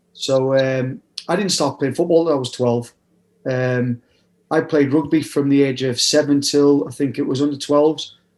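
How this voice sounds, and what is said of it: Mixed northeast English and Nottingham accent. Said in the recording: “I'm originally from the northeast. I was born in South Shields, brought up in Durham. So you'll hear a mixture of a sort of mixed accent. I've been in Nottingham since I was 16.”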